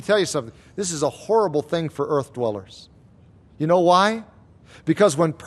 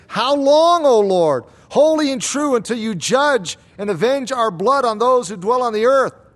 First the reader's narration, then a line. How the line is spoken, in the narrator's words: cried out with a loud voice saying